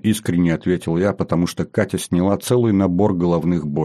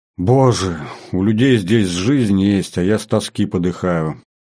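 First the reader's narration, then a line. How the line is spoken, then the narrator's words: Sighing. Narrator (Russian): вздохнула Катя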